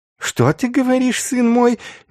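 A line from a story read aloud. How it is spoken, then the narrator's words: Honeyed questioning voice. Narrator (Russian): медовым голосом переспросил Инститорис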